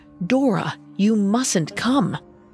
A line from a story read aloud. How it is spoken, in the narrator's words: Claire demanded Dora leave, rasping